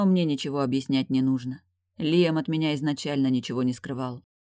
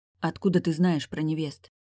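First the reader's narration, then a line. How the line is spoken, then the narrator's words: Whispered question. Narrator (Russian): спросила я шепотом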